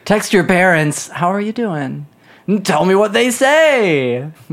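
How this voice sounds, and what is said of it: Excitable imitation of another person's voice. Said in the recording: “Was that a Nathan Fielder impression? That could not have been more off-brand. ... The most excitable man in the business.”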